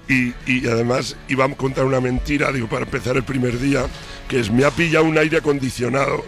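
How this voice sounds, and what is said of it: Hoarse, nearly lost voice. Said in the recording (Spanish): “Uy, esa voz como la... estoy afónico.”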